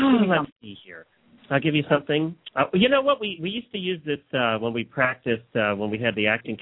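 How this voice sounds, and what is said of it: Usual voice. Nothing is said of it.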